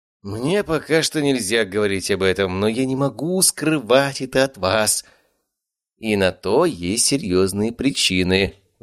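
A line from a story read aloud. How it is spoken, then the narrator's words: Sighed. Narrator (Russian): вздохнул Леонид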